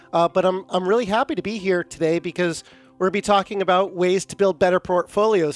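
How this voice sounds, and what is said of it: Slightly off, cold-affected voice. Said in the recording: “I've got a little bit of that cold that's going around ... my voice sounds a little bit off”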